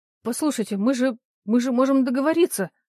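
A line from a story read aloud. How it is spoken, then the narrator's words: Frightened babbling. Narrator (Russian): начал лепетать испуганный Трепещенко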